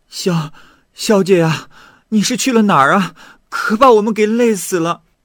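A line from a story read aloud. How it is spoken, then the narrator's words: Breathless panting. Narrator (Chinese): 几位侍女，张着嘴，喘着粗气，对少女说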